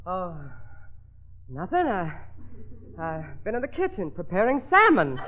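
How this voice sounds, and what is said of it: Out of breath, puffing. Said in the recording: “You're a little out of breath. ... why are you puffing?”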